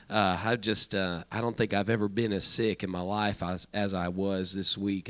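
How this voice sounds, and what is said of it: Sick, rough-sounding voice. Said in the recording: “Excuse my voice. I have been sick this week”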